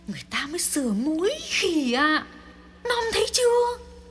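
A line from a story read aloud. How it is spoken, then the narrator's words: Quiet hiss. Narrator (Vietnamese): rít lên nho nhỏ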